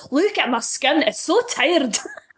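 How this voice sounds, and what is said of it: Put-on Scottish accent. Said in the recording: “I'm not very good at Scottish accents. I could do one, and it's an impression of Gerard Butler in that advert for moisturiser”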